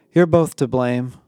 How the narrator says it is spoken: I sighed

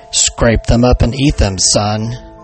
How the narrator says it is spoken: he growled

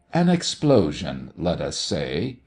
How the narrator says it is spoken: he replied gravely

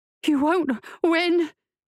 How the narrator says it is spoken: Felicia said, gasping

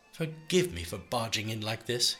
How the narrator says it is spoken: laughed

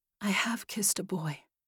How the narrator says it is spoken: she whispered

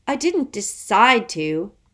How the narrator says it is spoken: Constance snapped

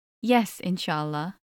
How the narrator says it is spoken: replied

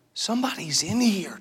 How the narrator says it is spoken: Josh whispered

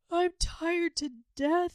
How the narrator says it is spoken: he wailed

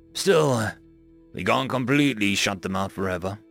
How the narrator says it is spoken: Richard sighed

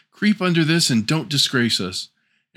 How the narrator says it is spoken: cried the two sisters

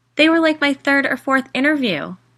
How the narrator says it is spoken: I exclaimed

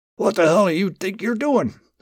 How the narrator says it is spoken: the man shouted

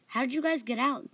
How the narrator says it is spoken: they asked

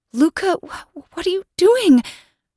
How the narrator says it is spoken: I stammered

